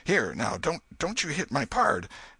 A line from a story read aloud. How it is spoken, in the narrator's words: exclaimed